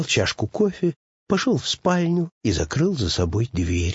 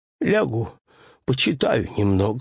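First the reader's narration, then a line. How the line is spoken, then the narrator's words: Sighing. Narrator (Russian): сказал Пэтсон, вздохнув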